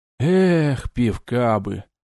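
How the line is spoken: Sad sigh, young man. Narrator (Russian): Печально вздохнул парень

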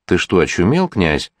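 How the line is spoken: Anxious whisper. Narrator (Russian): волнуясь, зашептал Осуга

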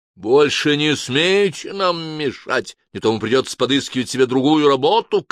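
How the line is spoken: Shout in Spanish. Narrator (Russian): крикнул Абрахам по-испански

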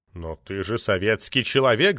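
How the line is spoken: Deep booming voice. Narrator (Russian): забасил Лялин

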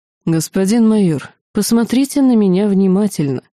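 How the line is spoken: Calm. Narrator (Russian): спокойно произнес Ланс

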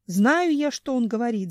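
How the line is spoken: Bear yelling. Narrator (Russian): заорал медведь

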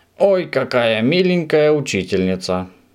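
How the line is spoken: Surprised exclamation. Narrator (Russian): удивленно воскликнул Субастик

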